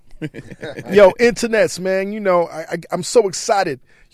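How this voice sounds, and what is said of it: Excited voice. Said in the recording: “I'm so excited, man. ... You can hear it in my voice.”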